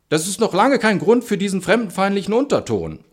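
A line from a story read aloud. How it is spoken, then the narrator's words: Call from outside. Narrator (German): ruft irgendwer von draußen zu uns herein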